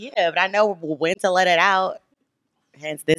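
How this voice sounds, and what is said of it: Usual voice. Nothing is said of it.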